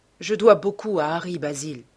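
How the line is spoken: Plain. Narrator (French): dit-il enfin

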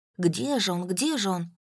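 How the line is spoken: Muttering. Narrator (Russian): бормотал

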